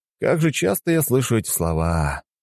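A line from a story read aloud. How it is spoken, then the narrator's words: Sighed. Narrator (Russian): вздохнул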